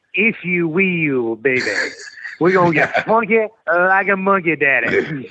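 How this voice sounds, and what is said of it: Dusty Rhodes impression. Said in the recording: “Your Dusty Rhodes impersonation.”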